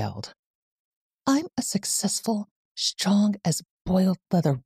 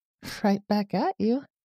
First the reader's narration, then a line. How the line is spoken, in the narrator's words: laughed